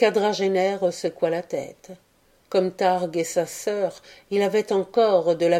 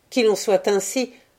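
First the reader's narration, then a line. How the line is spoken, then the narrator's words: Sneering grandson. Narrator (French): ricana le petit-fils de Dan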